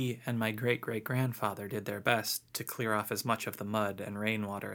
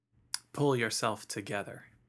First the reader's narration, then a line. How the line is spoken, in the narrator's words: Bill said